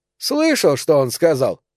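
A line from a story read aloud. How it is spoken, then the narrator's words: Loud laughter. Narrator (Russian): док расхохотался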